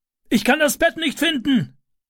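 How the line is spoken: Calling downward. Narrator (German): rief er nach unten

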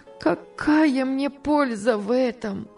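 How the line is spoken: Sobbing. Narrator (Russian): отвечала она, рыдая

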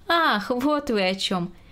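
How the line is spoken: Expressive, laughing. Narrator (Russian): выразительно произнесла Грета Максимовна и тоже засмеялась

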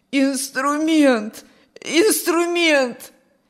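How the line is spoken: Hoarse wheeze. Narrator (Russian): сипел Петр

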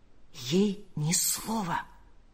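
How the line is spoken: Whisper. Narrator (Russian): прошептал он

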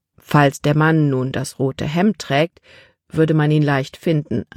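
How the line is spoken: Plain. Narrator (German): antwortete Papa

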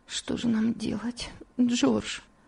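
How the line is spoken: Weak voice. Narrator (Russian): слабым голосом произнесла Элиза

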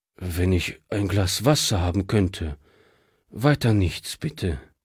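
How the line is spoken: Tired refusal. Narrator (German): wehrte dieser müde ab

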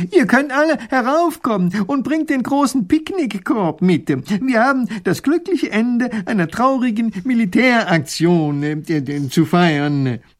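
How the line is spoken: Calling out. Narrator (German): Professor Pfiffikus ruft

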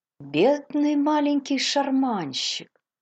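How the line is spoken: Sympathetic, pitying voice. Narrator (Russian): сочувствующим голосом, полным жалости, отозвалась Мейбл

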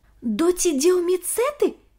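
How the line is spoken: Exclamation. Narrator (Russian): воскликнул Ник

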